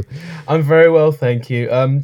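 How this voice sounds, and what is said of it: Slightly croaky voice. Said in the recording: “excuse my voice. It's a little bit croaky today”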